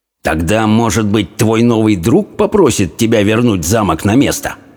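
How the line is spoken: Hissed. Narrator (Russian): прошипел

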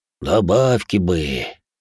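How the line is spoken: Sighed. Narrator (Russian): вздохнул Куват

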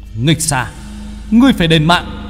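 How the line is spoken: Furious shout. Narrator (Vietnamese): Hoàng Chỉ mà hét lên

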